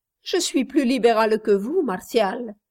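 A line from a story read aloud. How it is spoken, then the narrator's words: Laughing retort. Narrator (French): répliqua Flora en riant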